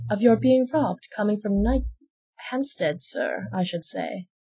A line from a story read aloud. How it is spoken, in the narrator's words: said she